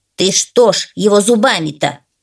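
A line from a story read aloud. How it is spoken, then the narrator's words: Grumbling crow. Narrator (Russian): разворчалась ворона на пса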